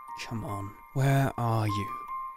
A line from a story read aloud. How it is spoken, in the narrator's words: He mumbled